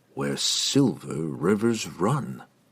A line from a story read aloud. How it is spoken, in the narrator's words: muttered in disbelief